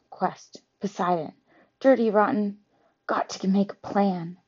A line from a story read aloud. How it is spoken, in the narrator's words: she would walk away muttering to herself